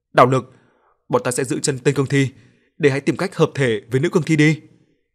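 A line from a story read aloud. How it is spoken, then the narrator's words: Loud shout. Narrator (Vietnamese): hét lớn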